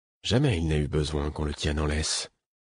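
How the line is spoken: Said softly. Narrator (French): dis-je doucement

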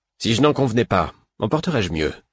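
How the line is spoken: Sour retort. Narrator (French): repartit l'autre d'un ton aigre

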